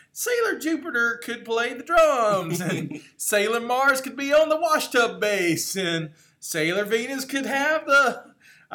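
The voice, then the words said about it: Regional accent growing thicker. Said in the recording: “I like how my accent just kicked in. ... It gets thicker, yeah.”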